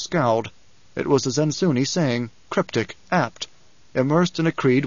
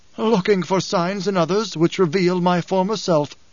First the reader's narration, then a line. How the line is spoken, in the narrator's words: the Gola laughed, said